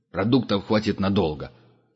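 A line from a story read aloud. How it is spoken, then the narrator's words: Angry reply. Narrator (Russian): сердито ответил Ворон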